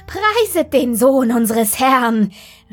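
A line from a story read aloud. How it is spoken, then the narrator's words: Called out, bursting into laughter. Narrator (German): rief der Doktor und brach in schallendes Lachen aus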